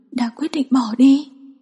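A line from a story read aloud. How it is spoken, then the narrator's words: Hoarse helpless voice. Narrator (Vietnamese): giọng nói khàn khàn bất lực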